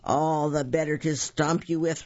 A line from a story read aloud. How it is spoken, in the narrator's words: roared the giant